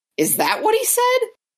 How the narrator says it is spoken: it was Senna that yelled that

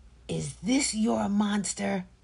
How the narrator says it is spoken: Zania asked hotly

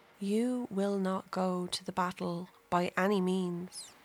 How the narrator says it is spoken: whispers in his ear

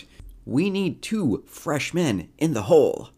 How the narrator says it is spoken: Hansen is yelling out

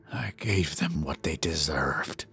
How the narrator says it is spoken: the man whispers in reply

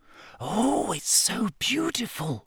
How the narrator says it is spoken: whispered Lavender Brown

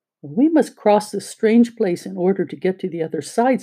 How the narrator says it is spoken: said Dorothy

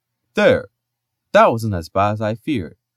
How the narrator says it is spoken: said cheerfully

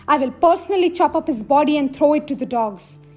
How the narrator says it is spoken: shouted

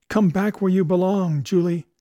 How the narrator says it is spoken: he cried

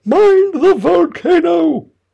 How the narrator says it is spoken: As soon as she had recovered her breath a little, she called out to the White King

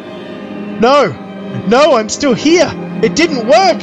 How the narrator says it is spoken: screamed

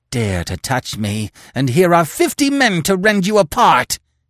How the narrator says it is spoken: he screeched

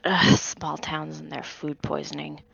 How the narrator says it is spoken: Under her breath, says

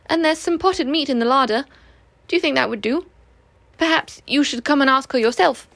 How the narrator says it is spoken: said Christopher Robin cheerfully

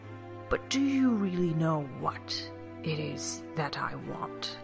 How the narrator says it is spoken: His voice was dangerous and rather quiet

